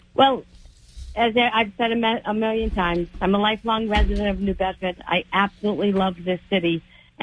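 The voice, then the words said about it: Voice sounding a little off, sick. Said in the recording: “my voice sounds a little funny tonight, I've been sick for the last couple of days”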